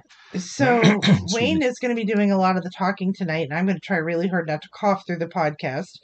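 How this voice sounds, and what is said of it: Scratchy, hoarse voice. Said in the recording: “my voice sounds a little different today... I have a very scratchy voice. This is actually the best voice I've had in about 4 days... this is the best you've sounded for a couple days”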